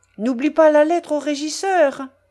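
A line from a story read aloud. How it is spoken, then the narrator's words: Shouted from another room. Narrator (French): cria Madame Polossov de l'antichambre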